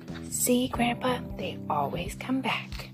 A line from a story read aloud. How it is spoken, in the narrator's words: whisper